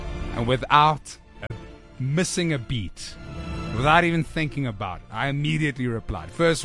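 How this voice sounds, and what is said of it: Usual voice. Nothing is said of it.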